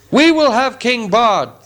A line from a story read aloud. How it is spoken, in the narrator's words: the people shouted in reply